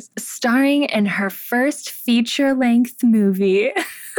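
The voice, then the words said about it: Imitated Barbie voice. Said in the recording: “I'm doing my Barbie voice”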